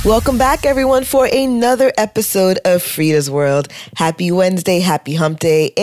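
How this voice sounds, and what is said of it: Deep, congested, sore-throated voice. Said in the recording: “my voice is a little on the deep side ... my sinuses, you know, congested my throat was percolating with soreness”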